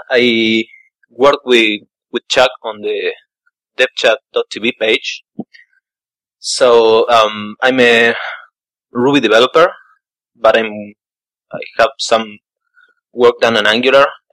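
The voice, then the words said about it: Argentinian-accented English. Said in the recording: “your accent is fantastic ... I'm actually here to listen to your accent”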